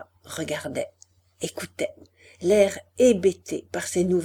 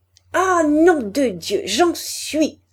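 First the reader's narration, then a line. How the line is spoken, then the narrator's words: Stammering. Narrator (French): balbutiait-elle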